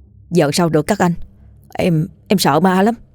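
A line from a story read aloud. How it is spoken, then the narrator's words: Trembling frightened voice. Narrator (Vietnamese): Hòa tái mặt, run rẩy nói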